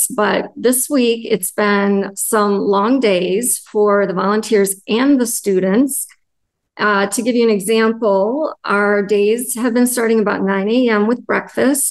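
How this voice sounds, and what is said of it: Worn-out, strained voice. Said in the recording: “my voice is about shot. I have been recovering from laryngitis, ... I've been struggling a little bit with my voice”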